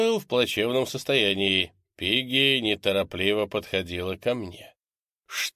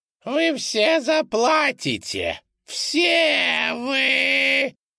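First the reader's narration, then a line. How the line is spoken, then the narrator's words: Shrill shriek. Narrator (Russian): Взвизгнула Пигги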